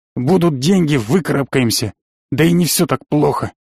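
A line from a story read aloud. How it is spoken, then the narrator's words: Calmed snort. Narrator (Russian): хмыкнул он, успокоившись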